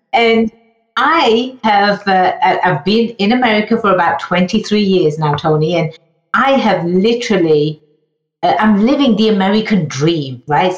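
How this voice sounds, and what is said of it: English accent. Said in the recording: “I was born and raised in England, hence the funny accent.”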